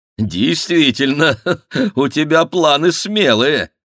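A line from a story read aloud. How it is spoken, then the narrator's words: Cheerful laughing speech. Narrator (Russian): весело засмеявшись, сказал Ленуар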